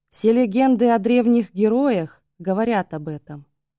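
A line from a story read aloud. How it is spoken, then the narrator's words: Gloomy, pensive reply. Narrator (Russian): то ли мрачно, то ли просто задумчиво ответил сын вождя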